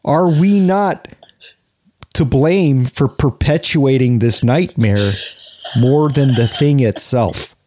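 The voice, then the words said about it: Slowed-down imitation of another person's voice. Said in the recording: “Bob Woodward might be leading the pack ... I try to do Bob Woodward, but I skew, like I've said before, more Dennis Franz, but I realize it's actually I'm doing a Dennis Farina impression, but slowing it down”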